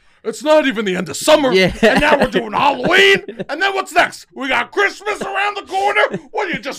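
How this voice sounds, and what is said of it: Usual voice. Nothing is said of it.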